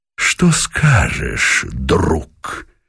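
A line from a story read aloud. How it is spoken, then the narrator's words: Quiet, mocking question. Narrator (Russian): Тихо, без злобы, скорее насмешливо, спросил Пугачев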